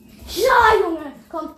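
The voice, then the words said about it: Shouting loudly. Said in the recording (German): “Schrei doch nicht so, Junge.”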